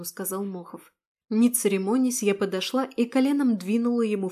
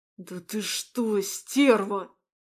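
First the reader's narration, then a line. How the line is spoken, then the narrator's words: Hissed. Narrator (Russian): прошипел он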